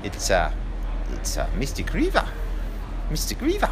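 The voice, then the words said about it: Poor imitation of New Zealand accent. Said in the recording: “That's not a very good New Zealand accent”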